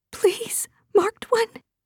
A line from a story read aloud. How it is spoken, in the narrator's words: begged